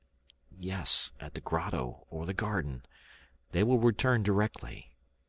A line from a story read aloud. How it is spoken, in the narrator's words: I murmured